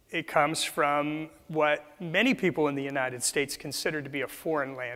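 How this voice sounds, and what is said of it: Noticeable non-local accent. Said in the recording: “my funny accent”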